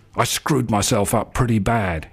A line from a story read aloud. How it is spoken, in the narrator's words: he says